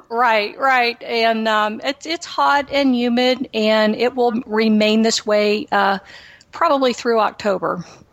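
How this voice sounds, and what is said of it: Slight Texan accent. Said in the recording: “I definitely hear a little bit of an accent... I am from Texas. I am a native Houstonian.”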